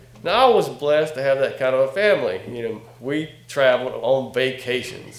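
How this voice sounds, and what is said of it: North Carolina Southern accent. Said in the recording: “from North Carolina, by the way. Can you tell from my accent?”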